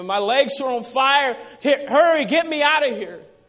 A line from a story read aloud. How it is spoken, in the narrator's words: this man screaming